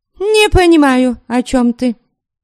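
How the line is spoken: Pale, snapping. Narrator (Russian): Огрызнулась мгновенно побледневшая Криста

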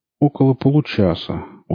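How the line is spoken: Dejected voice. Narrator (Russian): унылым голосом ответил тот

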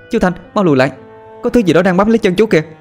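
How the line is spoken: Loud shout. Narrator (Vietnamese): Cô hét lớn

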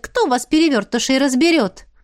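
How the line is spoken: Snorting. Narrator (Russian): Ратмир вновь хмыкнул

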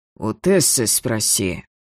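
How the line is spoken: Hoarse. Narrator (Russian): хрипло проговорил инквизитор

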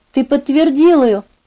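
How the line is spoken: Whisper. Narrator (Russian): шепотом проговорила она

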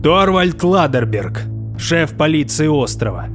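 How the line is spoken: Thundering reply. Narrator (Russian): прогремело в ответ

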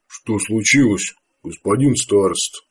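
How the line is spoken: Quiet gloomy question. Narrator (Russian): тихо спросил Артак, помрачнев на глазах

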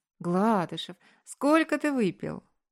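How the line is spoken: Laughing with pleasure. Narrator (Russian): Засмеялась я, зардевшись от удовольствия

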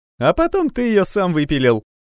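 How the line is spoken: Joyful interruption, breaking off. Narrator (Russian): радостно перебил его подросток, но осекся и замолчал

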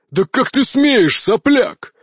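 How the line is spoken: Roaring. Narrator (Russian): взревел он

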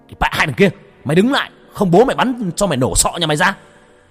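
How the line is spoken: Loud shout. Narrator (Vietnamese): Anh Phương hét lớn

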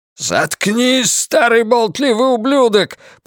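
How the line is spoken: Shouted. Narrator (Russian): прокричал Ллойд

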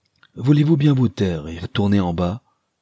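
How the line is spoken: Exclaiming. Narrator (French): s'écria Mrs

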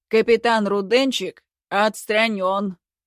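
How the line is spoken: Barking. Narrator (Russian): рявкнул подполковник

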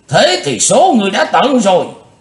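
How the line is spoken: Furious thunderous roar. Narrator (Vietnamese): Nam tà không còn kiềm hãm được cơn tức giận của mình nữa … giống tợ như trời gầm

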